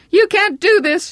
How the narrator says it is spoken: she cried

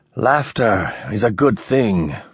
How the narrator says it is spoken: he said weakly

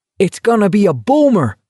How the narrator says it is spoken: Parker yelled gleefully

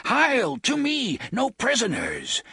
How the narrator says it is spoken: Will Dearborn screaming

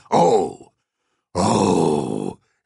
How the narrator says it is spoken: in a loud bass growl

